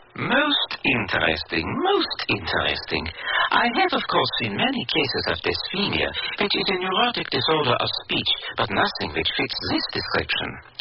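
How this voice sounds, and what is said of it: Psychiatrist character with foreign accent. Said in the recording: “Do all psychiatrists speak with an accent?”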